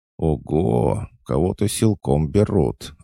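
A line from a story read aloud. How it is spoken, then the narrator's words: Gleeful exclamation. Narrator (Russian): обрадованно воскликнула Злова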